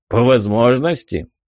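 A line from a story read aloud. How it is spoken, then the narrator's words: Grunting, questioning. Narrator (Russian): хмыкнув, переспросил Ковач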